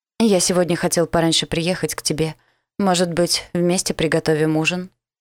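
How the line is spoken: Hoarse, insistent, arousing voice. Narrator (Russian): Его голос хриплый, немного настойчивый, возбуждающий

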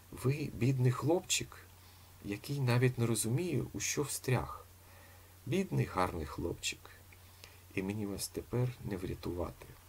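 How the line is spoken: Sad speech. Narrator (Ukrainian): Амалія Казимирівна сумно промовила

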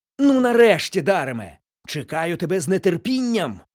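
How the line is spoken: Exclaimed. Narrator (Ukrainian): вигукнув містер Відгем

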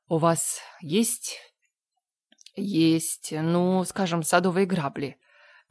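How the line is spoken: Stammering question. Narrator (Russian): Заикаясь, спросил Мэтью

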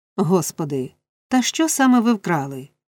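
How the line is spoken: Warden's near-desperate exclamation. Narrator (Ukrainian): вигукнула наглядачка вже майже з розпачем у голосі

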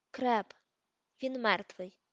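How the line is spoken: Sharp curt remark. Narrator (Ukrainian): Різко кинув Рон

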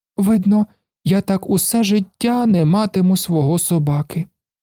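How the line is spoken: Sad. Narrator (Ukrainian): сумно сказав, коли йому випав такий поганий день

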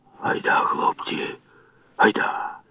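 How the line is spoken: Old man whispering. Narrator (Ukrainian): шепнув дід

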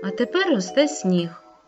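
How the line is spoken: Absent-minded grumble. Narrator (Ukrainian): неуважно буркнула вітрогонка

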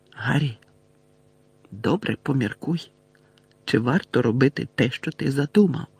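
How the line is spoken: Whisper. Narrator (Ukrainian): зашепотіла Герміона

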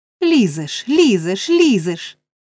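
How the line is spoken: Shout. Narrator (Ukrainian): закричав Ной

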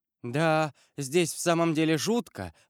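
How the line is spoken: Woman's exclamation. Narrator (Russian): воскликнула госпожа де Вильфор

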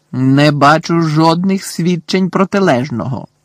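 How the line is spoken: Angry yell. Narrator (Ukrainian): заволав Фадж не менш сердито, ніж професорка

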